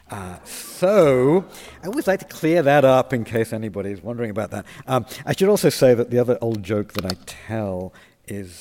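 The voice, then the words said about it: British accent. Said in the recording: “the accent you're hearing is British”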